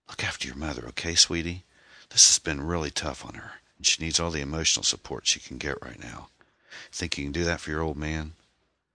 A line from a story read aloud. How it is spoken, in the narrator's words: Sam whispered in her ear